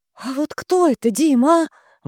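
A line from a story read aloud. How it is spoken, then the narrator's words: Breathless exhale. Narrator (Russian): выдохнула Вика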